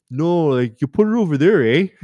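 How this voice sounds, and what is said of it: Exaggerated Canadian accent. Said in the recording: “I would just bring my Canadian out more.”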